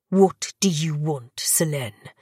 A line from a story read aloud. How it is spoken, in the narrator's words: Gabriel growled